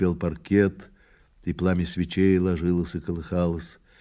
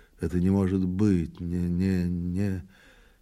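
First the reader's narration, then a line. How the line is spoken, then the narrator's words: Anxious muttering to self. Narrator (Russian): полный, по-видимому, важных и тревожных дум, он обмяк, постарел и говорил сам с собой, бормоча и покусывая губы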